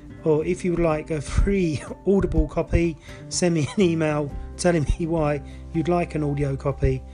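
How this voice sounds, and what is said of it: Voice with a cold, coughing. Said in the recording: “Sorry I'm coughing a little bit. I've got a little bit of a cold.”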